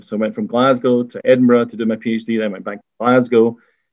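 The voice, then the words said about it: Scottish accent. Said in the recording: “you could probably tell from my accent, in Scotland”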